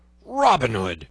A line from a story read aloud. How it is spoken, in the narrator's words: roared he